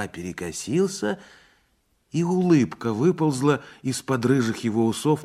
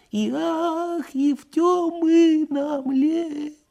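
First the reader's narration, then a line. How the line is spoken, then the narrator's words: Singing, thin trembling voice. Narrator (Russian): дрожащим тоненьким голосом запел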